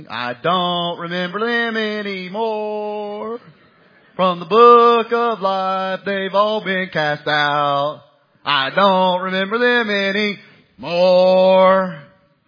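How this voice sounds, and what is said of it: Sung in a rural Southern accent. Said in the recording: “my Gaston County accent ... That's how we sing over in Gaston County”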